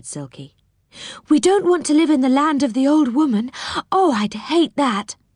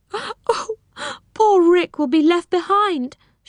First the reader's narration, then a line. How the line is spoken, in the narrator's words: she sobbed